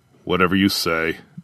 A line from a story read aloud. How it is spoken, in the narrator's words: Jar muttered